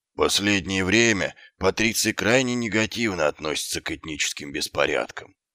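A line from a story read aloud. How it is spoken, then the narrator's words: Gloomy sergeant. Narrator (Russian): уныло произнес сержант Колон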